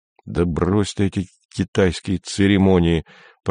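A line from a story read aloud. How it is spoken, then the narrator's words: Annoyed awkward grumble. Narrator (Russian): проворчал Андрей с досадой и неловкостью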